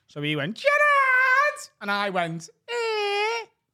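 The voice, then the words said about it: Exaggerated Scouse accent shout. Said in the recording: “shouted Gerard in a really Scouse accent”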